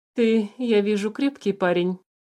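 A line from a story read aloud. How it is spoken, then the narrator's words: Calm, somewhat sad. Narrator (Russian): спокойно и даже как-то печально проговорил правитель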